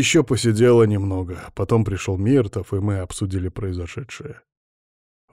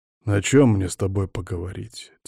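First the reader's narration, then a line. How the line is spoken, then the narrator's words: Quiet question. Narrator (Russian): тихо спросил я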